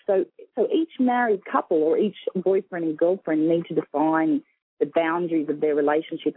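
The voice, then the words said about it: Australian accent. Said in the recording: “You have such a beautiful accent ... I'm from Sydney, Australia”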